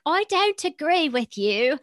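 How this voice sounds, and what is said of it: Put-on British accent. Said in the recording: “speak in a British accent”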